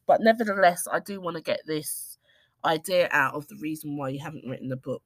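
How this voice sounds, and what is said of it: Nasal, congested voice from a cold. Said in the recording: “I sound nasally and congested, it's because I am. I have a cold”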